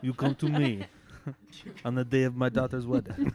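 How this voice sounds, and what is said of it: Put-on Italian accent. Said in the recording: “Italian.”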